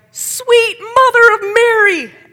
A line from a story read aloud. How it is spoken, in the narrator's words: A lady who was working there yelled